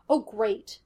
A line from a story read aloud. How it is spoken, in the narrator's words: Gus snapped